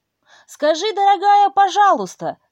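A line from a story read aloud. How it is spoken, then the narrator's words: Shouted. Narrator (Russian): закричала ей Женя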